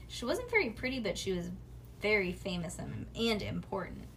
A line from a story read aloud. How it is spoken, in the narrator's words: Bean sighed